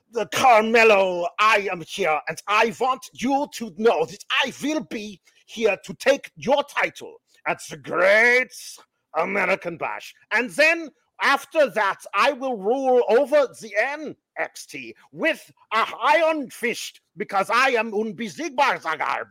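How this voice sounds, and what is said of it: Imitates another person's heavily accented voice. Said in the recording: “The way Dragunov speaks ... that guy's got a bad accent ... this is how this is Dragunov talks”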